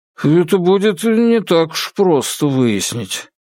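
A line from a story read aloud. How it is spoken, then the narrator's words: Mumble. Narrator (Russian): Какой-то следователь промямлил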